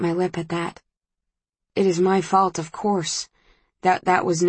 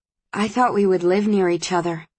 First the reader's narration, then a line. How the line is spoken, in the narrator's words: says Susan